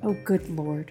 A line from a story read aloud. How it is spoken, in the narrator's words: she muttered